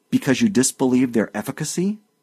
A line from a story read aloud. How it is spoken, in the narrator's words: Markheim cried